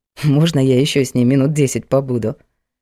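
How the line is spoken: Snort. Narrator (Russian): хмыкнул тот

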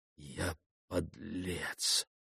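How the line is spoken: Whispered to himself. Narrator (Russian): прошептал он про себя

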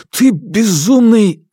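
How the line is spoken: Forced out with difficulty. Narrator (Russian): кое-как выдавил

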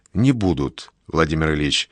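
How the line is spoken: Quiet. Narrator (Russian): тихо говорит Полонский

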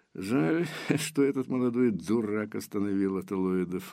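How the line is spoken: Giggling. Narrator (Russian): Матер хихикнул

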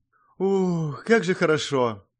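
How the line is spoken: Relieved exhale. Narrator (Russian): облегченно выдохнула она

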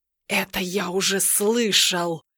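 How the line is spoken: Pompous sorcerer hissing. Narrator (Russian): прошипел колдун, будто раздувшаяся от важности змея

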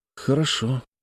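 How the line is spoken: Said quietly. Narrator (Russian): Я тихо сказал

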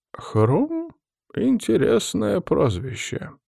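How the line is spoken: Bewildered old woman. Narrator (Russian): растерянно ответила бабуля

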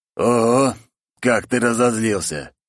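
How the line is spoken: Surprised man. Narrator (Russian): удивился мужик

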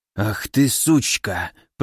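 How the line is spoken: Hissed. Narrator (Russian): прошипел Ильяс

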